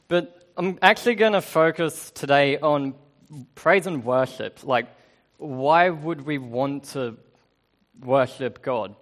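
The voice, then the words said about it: Australian accent. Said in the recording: “I do have an accent because I'm Australian”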